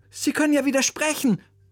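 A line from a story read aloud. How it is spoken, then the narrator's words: Calling out. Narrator (German): rief Oliver seinem Musiklehrer zu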